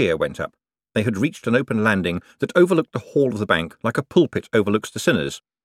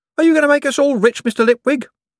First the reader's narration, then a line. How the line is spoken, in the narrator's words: someone called out